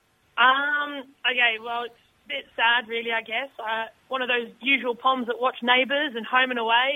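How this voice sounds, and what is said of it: English accent. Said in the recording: “people can detect by your accent you're an English woman”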